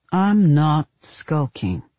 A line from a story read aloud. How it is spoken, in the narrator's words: Parker said evenly